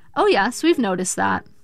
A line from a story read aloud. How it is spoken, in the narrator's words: the nurse said